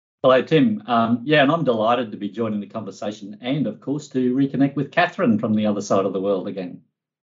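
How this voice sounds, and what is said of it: Australian accent. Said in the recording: “The accent has probably given it away already ... adjunct professor in the School of Chemical Engineering at the University of Queensland”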